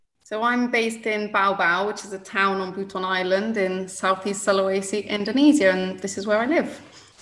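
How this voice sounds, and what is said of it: British accent. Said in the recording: “I can hear by your accent you weren't necessarily born in Indonesia ... I'm from the UK originally”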